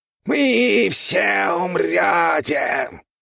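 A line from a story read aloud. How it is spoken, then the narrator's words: Menacing squeak. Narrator (Russian): грозно пропищал крысиный король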